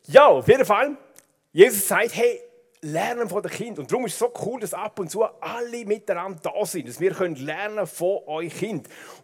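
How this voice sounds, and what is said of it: Swiss German dialect speech. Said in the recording (German): “Wir wechseln wieder zurück zum Dialekt ... man versteht manchmal Dialekt gleich besser”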